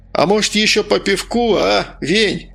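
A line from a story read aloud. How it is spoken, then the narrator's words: Mocking shout after someone. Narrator (Russian): насмешливо крикнул ему вслед Медовар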